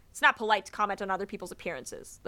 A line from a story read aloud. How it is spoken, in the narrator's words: said sternly